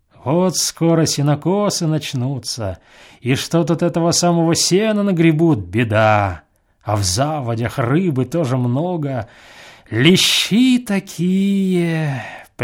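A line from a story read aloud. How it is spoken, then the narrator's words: Singsong drawl. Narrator (Russian): прибавил он нараспев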